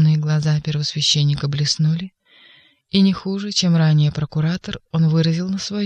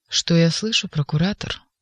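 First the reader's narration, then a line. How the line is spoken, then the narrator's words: Proud and calm. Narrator (Russian): гордо и спокойно ответил Каифа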